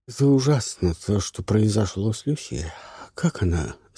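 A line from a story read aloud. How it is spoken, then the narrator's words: Slightly hoarse voice. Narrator (Russian): слегка сиплый голос удивительно подходил к Ларисе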